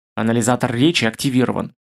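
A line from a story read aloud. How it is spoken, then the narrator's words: Grumbled. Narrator (Russian): буркнул Нап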